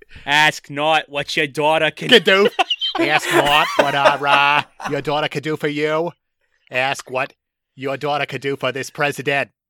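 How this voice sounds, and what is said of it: Imitates another person's voice and accent. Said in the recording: “That's JFK. ... accent change.”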